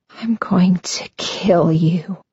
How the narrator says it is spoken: whisper

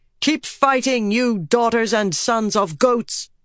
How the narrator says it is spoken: Birgitta yelled

